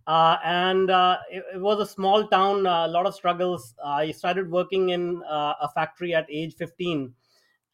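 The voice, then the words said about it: Indian English accent. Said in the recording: “I grew up in India, if people can tell from my accent.”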